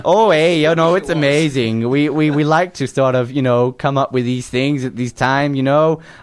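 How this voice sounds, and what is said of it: Strong put-on accent. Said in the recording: “I didn't realise how strong your accent was”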